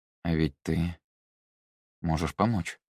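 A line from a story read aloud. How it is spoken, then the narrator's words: Mumbled. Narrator (Russian): пробормотал он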